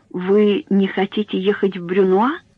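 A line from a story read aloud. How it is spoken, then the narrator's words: Quiet question. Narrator (Russian): тихо спросил ее доктор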